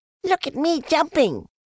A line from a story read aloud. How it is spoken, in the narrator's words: squeaked Roo